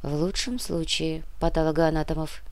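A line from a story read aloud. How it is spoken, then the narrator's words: Quiet. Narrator (Russian): тихо добавила Яна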